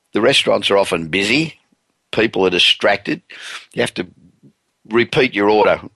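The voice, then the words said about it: Speaker's own accent. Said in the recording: “particularly with my accent.”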